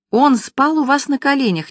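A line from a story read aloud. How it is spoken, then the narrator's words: Indignant exclamation. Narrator (Russian): негодующе воскликнула зайка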